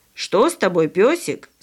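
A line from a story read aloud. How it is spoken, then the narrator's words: Plain question. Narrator (Russian): спросила бабушка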